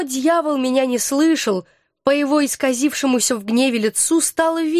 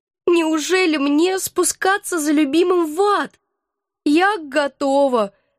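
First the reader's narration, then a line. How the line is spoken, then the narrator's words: Naive sob. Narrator (Russian): наивно всхлипнула я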